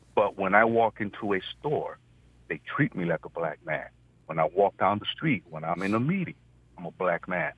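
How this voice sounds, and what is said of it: Puerto Rican accented English. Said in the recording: “when I open my mouth and you detect the accent that differentiates me ... you're Puerto Rican”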